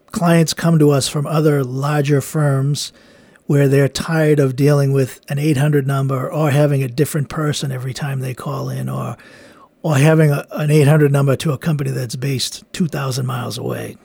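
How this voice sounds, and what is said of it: Boston accent. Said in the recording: “I speak English with a Boston accent.”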